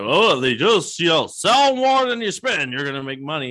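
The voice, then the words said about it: Imitates another person's voice. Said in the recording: “my John Madden impression”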